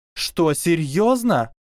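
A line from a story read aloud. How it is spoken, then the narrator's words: Exclamation. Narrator (Russian): воскликнула Сьюзан Боунс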